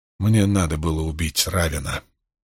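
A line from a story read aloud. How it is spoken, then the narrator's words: Quiet. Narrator (Russian): тихо произнес Ранд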